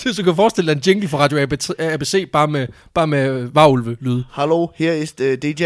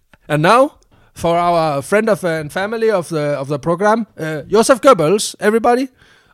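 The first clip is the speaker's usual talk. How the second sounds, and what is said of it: English with put-on German accent. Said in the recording (Danish): “med engelsk med tysk accent.”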